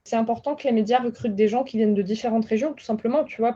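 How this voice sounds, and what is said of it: Southwestern French regional accent. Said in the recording (French): “quand tu viens du sud-ouest et que tu as un accent”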